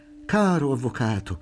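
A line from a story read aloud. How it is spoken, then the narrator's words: Exclaimed. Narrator (Italian): aveva esclamato Bocchini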